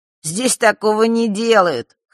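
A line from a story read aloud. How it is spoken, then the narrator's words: Snort. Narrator (Russian): хмыкнул Маар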